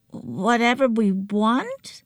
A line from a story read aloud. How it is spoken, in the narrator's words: croaked